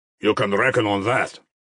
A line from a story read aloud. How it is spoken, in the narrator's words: the tall Pole snapped contemptuously